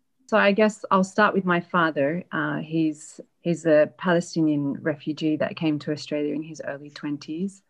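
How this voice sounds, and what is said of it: Australian accent. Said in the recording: “with an Australian accent ... With an Australian accent.”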